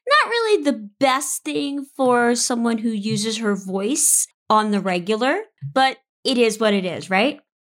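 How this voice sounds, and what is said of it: Strained, altered voice. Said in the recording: “I sound a little different today, having a little bit of a vocal cord flare up ... I have something called vocal cord disorder. So sometimes my vocal cords do what they want to do.”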